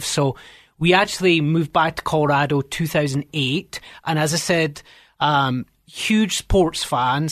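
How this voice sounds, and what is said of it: Scottish accent. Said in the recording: “by the funny accent, I'm not from here. Grew up in Scotland”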